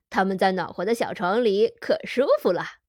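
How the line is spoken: Smiling. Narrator (Chinese): 他笑着说

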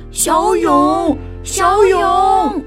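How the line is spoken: Group shouting together. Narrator (Chinese): 伙伴们一起大声叫着

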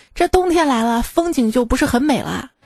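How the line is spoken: Sighing. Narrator (Chinese): 保安小王叹着气跟同事说

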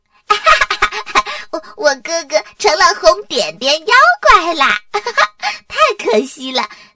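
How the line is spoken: Laughing nonstop. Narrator (Chinese): 多拉笑个不停地说

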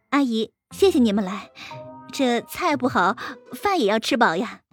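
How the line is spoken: Smiling. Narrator (Chinese): 陈静笑着说

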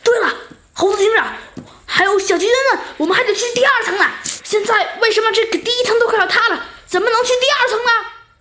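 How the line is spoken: Sudden loud exclamation. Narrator (Chinese): 弗兰熊好像想到了什么似的，大声叫道

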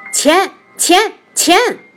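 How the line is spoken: Yelling loudly. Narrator (Chinese): 月亮脸大叫

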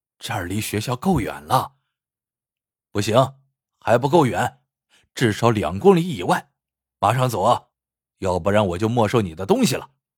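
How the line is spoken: Chuckling. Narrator (Chinese): 老王嘿嘿笑着说

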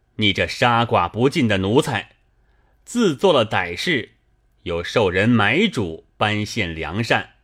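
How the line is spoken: Cold sneering. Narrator (Chinese): 知州冷笑一声…指着贼首道

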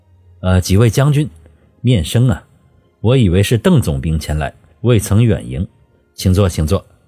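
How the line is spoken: Smiling, genial. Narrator (Chinese): 罗福龙笑眯眯的

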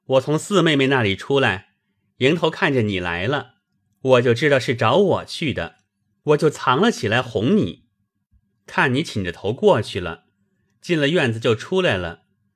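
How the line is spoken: Laughing. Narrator (Chinese): 宝玉笑道

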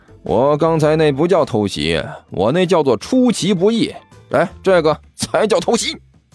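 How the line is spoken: Grinning. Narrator (Chinese): 齐剑咧嘴一笑

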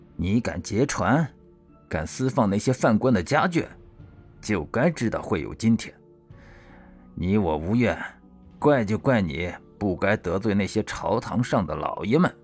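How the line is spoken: Low voice. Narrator (Chinese): 压低声音说道

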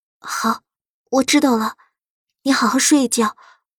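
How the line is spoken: Lowered, restrained voice. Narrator (Chinese): 苏黎强忍着色意，放低声音道

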